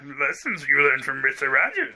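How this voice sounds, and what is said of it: Bad Yoda impression. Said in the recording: “That was really bad, terrible Yoda impersonation.”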